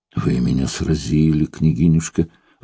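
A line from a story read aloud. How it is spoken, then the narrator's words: Gloomy sigh. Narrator (Russian): вздохнул явно мрачнее Сергей Романович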